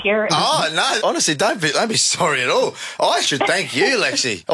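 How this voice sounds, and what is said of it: Australian accent. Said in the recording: “This is my favourite Australian accent.”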